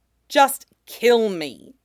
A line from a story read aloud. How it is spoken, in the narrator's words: Bo-Katan said through gritted teeth, her tone more annoyed than defeated